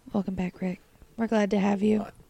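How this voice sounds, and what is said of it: Smooth raspy radio-announcer voice. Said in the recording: “NPR voice ... Like a little like scratch in my throat and it like put on my like sexy radio voice”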